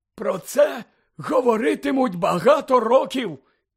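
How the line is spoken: Hoarse strained voice. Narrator (Ukrainian): зірваним голосом прохрипів

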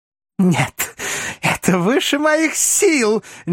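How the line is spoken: Nervous laughter. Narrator (Russian): нервно расхохоталась парижанка

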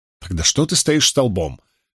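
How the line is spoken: Angry self-question. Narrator (Russian): сердито спросила себя Найниф

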